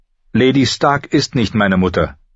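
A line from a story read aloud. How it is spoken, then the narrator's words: Sharp reminder. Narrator (German): erinnerte ihn John scharf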